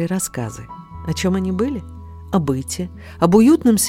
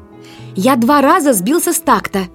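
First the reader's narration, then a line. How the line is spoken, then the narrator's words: Shouting. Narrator (Russian): кричал Жоржик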